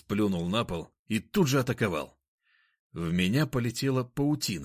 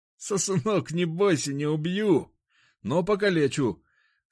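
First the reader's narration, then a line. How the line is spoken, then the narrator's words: Laughing menacingly. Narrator (Russian): сказал кабан и рассмеялся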